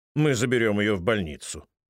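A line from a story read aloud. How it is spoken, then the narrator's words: Businesslike tone. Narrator (Russian): говорят они деловым тоном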